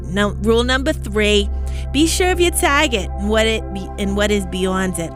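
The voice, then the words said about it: Put-on Boston accent. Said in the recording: “I used my Boston accent. For that, I just felt like I needed to channel that.”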